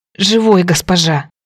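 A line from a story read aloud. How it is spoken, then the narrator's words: Hoarse wheeze. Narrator (Russian): просипел Бен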